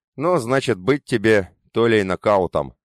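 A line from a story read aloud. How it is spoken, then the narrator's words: Snort. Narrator (Russian): хмыкнул Бакарез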